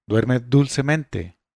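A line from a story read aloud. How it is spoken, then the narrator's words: Exclaiming. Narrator (Spanish): exclamó él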